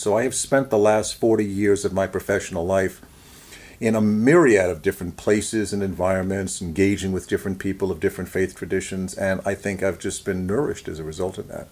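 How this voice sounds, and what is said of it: Queens accent with Boston tinge. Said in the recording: “borough accents ... Queens ... honed a little bit more in Boston ... now I hear the Boston”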